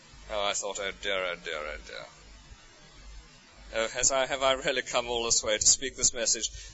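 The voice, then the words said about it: English accent, BBC English. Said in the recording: “It's so wonderful to hear an English accent. ... BBC English”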